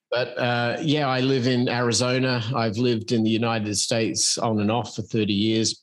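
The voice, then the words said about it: Australian accent. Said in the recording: “I'm an Australian expat who moved to the United States in 1989. So that would explain my somewhat unusual accent.”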